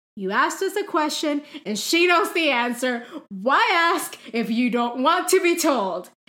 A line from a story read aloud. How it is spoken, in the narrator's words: Ron said loudly